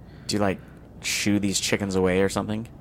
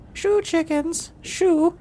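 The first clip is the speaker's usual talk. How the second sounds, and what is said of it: Old lady voice. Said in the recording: “old lady voice, apparently... The worst Varg impression”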